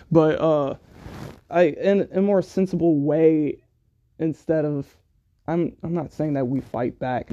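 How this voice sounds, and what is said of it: Choked-up, emotional voice. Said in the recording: “oh, I'm getting choked up,”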